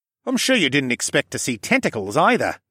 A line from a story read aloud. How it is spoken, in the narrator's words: Callan snorted